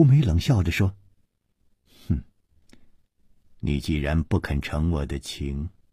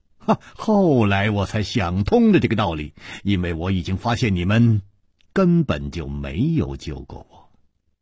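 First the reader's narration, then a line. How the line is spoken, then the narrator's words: Smiling. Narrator (Chinese): 楚留香笑了笑接着说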